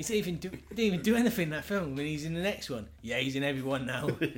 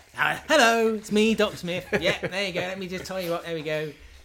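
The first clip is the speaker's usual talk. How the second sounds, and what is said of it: Put-on English accent. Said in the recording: “He's got a good English accent, mate.”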